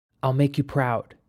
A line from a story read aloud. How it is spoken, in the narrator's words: said in a whisper